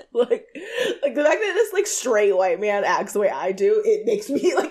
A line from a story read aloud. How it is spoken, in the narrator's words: I laugh